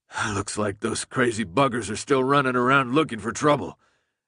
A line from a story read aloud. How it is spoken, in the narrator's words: Alec said through a groan